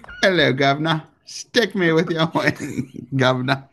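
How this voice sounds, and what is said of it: Attempted British accent. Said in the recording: “I can't do a British accent.”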